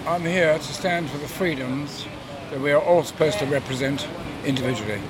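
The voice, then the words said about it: English accent. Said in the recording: “a local person obviously with an English accent”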